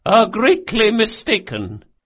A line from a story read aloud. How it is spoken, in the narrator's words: said Doña Vorcenza coldly and levelly